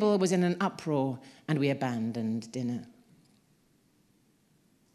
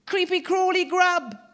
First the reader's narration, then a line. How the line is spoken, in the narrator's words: she exclaimed